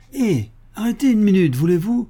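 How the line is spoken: Cheerful call. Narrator (French): lance-t-il gaiement

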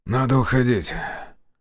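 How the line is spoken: Suddenly hoarse. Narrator (Russian): Внезапно охрипнув, сказал Зотов

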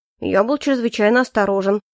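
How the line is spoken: Skeptical snort. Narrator (Russian): хмыкнул Эрик

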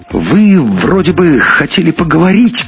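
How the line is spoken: Shouting after someone. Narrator (Russian): крикнула ему вслед Маруся

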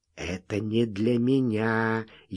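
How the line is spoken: Very soft whisper. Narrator (Russian): еще тише прошептал Бешеный

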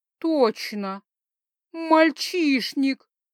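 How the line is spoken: Moaning. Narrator (Russian): простонала я

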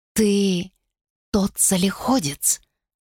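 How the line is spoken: Quiet female voice. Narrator (Russian): тихо сказала она

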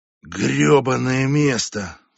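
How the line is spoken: Sighing. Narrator (Russian): вздохнула

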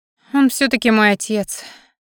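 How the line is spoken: Sigh. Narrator (Russian): вздохнула Алекса

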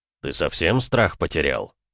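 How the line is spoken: Through gritted teeth. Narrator (Russian): процедил Ратмир

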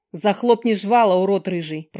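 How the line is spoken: Through gritted teeth. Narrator (Russian): процедила Алекс

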